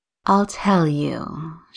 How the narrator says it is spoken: she said, her voice dropping to a purr

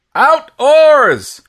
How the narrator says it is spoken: he shouted, loud as he could this time

